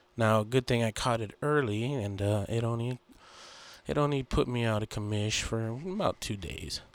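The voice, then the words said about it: Sick, congested voice. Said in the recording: “If I sound a little different today, that's because I'm getting over the flu.”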